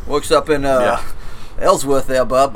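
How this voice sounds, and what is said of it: Put-on Maine accent. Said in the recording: “Probably talks like this... Not bad for a Florida guy... it's a wicked bad accent. All right, that was Mayor Quimby, I think, from The Simpsons.”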